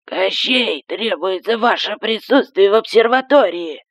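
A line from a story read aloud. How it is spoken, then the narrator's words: Hoarse speaker crackle. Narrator (Russian): прохрипел динамик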